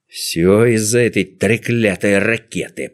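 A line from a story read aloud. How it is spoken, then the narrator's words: Hissed. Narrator (Russian): прошипел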